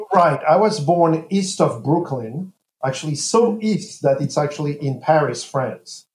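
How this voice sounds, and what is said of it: French accent in English. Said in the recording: “my accent, I was not born and raised in the U.S. ... this is not a typical American accent”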